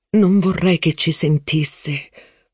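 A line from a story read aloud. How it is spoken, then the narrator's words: Hushed murmur. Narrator (Italian): mormorò la principessa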